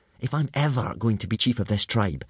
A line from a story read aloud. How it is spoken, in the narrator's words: whispered Hiccup to Fishlegs